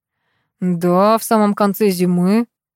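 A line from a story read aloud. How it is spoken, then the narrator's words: Gloomy reply. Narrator (Russian): мрачно ответил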